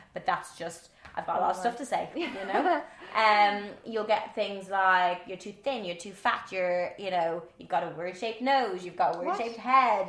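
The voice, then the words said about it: Irish accent, fast speech. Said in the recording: “my Irish accent ... I do speak very fast”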